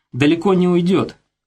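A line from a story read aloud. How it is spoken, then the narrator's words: Grim joke. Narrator (Russian): мрачно пошутил Шаланда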